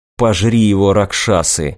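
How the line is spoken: Muttered. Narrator (Russian): пробормотал Сахель

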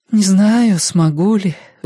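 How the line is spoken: Sighing mother. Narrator (Russian): вздохнула ма

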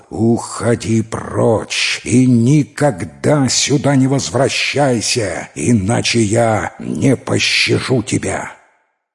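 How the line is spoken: Impatient roar. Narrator (Russian): терпение льва иссякло, и он зарычал

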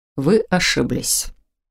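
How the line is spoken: Calm objection. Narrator (Russian): спокойно возразил Фолкнер

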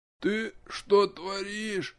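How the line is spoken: Barely audible moan. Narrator (Russian): Едва слышно простонало нечто

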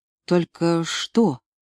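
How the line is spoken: Quiet question. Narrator (Russian): тихо спросила Лена

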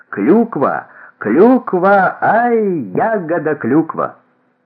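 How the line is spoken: Laughing. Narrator (Russian): Кипренский рассмеялся

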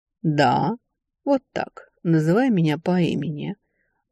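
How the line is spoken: Hoarse drawl. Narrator (Russian): хрипло протянул некромант

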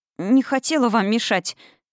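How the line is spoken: Babbling girl. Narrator (Russian): залепетала девица

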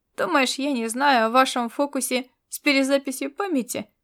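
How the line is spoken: Mocking question. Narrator (Russian): насмешливо вопросил

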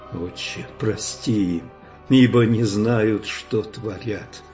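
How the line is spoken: Very quiet voice. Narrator (Russian): тихо-тихо прозвучало с креста

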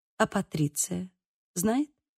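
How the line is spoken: Quiet question. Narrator (Russian): спросила тихо

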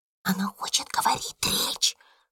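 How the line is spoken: Whisper. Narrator (Russian): шепнула одна из учениц

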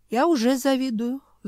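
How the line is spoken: Wistful sigh. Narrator (Russian): вздохнул бывший куратор

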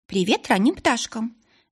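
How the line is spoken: Cheerful greeting. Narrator (Russian): весело поздоровалась Ларика

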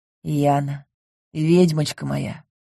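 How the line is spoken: Happy whisper. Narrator (Russian): прошептал Ингар, не сводя с меня счастливых глаз

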